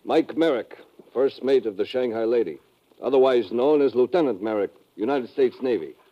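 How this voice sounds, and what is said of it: Speaks with a natural accent. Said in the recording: “I guess you can drop the accent for the time being. ... Oh, built in, huh?”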